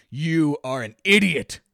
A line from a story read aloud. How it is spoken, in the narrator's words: Marcus spat